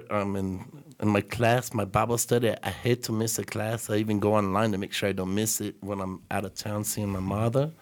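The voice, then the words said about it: Speaks with a noticeable accent. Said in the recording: “You make that sound so much better with your accent.”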